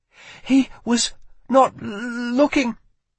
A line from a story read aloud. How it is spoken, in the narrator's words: she stammered, struggling to find the words in English, the royal tongue